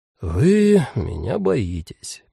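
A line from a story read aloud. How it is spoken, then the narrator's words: Sad, flat statement. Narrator (Russian): печально констатировал гость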